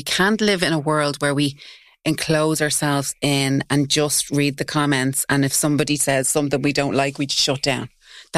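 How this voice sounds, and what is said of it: Working class accent. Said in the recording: “I'm from Tala. I speak with a working class accent.”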